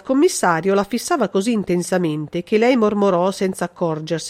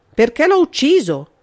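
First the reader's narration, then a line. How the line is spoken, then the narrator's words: Shouted. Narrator (Italian): gridò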